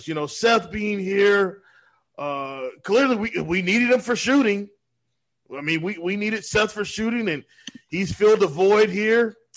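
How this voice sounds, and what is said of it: Imitates another person's voice. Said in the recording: “my Doc Rivers impersonation”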